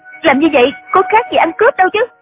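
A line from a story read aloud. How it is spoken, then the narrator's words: Angry. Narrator (Vietnamese): Triệu Mẫn giận dữ nói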